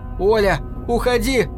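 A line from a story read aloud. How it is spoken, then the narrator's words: Shouting. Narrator (Russian): заорал в темноту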